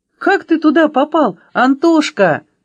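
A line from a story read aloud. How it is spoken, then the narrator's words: Exclamation. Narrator (Russian): воскликнула Аля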